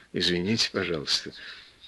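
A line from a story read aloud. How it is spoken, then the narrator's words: Stifled laugh. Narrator (Russian): Валя опять невольно засмеялась, но спохватилась и сказала Глебу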